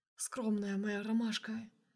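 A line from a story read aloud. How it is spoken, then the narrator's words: Whispered. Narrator (Russian): прошептал Сергей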